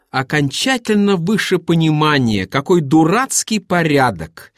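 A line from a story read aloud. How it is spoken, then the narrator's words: Angry insistent repetition. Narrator (Russian): сердито твердил он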